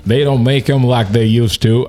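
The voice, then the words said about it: Poor attempt at country accent. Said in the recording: “I try to use my country accent. That was very terrible. ... you're straight out of Kentucky, man. You should have it dialed right in.”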